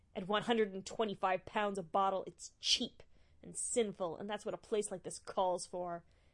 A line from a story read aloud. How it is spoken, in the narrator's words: The Honorable Simon Marshmallow sneered